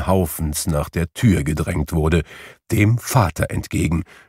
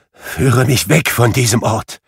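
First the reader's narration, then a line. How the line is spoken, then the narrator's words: Trembling voice. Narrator (German): rief Scrooge mit bebender Stimme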